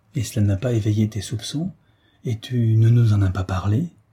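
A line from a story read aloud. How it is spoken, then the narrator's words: Growled. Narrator (French): gronda Jean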